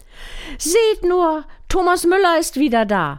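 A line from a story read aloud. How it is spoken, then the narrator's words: Calling. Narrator (German): rief sie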